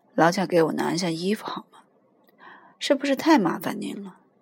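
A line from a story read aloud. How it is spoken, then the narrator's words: Tiny, frightening voice. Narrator (Chinese): 他是个十分可怕的小鬼，尽管他说话的声音那么细小，他却能吓得你心惊肉跳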